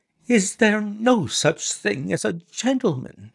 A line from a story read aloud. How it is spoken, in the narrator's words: she gasped